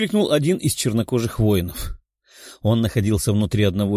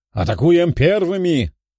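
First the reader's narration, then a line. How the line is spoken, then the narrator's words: Shouted command. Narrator (Russian): выкрикнул командир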